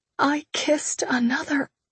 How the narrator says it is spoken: I whispered

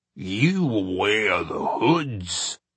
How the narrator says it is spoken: growled the graying wolf they all assumed to be the leader

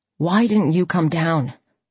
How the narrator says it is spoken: he gasped

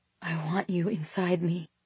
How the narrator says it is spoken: gave in, finally, whispering

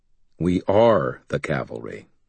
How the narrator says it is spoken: I said in a flat tone

